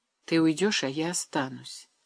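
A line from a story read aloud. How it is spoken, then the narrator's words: Quiet. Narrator (Russian): тихо продолжала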